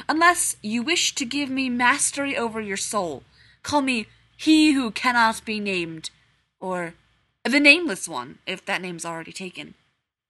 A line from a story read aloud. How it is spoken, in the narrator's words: the Dark Lord boomed